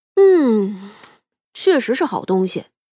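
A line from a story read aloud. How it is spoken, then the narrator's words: Contented sigh. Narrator (Chinese): 长生眯着眼，享受似的叹了口气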